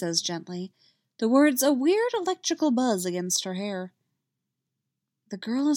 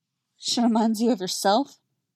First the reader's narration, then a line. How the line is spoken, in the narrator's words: Leia asks, her voice muffled and not as sharp as she'd like